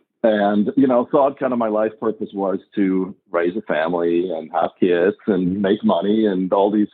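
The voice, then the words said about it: Swiss accent. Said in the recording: “I'm originally from Switzerland, born and raised, you probably can tell by my accent”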